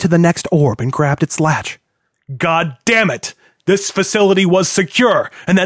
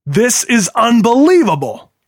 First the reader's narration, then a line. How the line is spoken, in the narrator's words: Hill cried